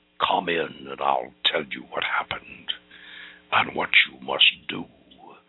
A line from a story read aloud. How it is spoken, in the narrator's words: Marcoux's ghost whispered through the voice of a body no longer his